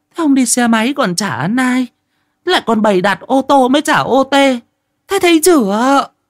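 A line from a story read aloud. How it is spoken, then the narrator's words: Woman yelling over money. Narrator (Vietnamese): bà Đồng ở nhà xót tiền suốt ngày gào mồm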